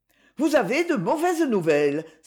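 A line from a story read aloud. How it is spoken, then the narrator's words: Exclaimed. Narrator (French): s'écria-t-elle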